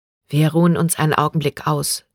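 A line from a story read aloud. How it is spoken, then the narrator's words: Plain. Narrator (German): sagte sie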